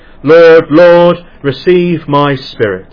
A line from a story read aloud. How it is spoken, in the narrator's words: Ridley saw the fire flaming up towards him, he cried with a wonderful loud voice